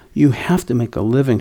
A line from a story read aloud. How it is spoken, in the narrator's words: she answered